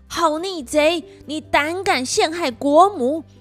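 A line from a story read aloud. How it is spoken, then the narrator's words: Furious shout. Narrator (Chinese): 太子殿下大怒，大叫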